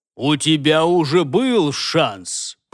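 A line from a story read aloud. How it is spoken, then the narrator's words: Menacing, lecturing. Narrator (Russian): поучительно заявил он юноше грозным голосом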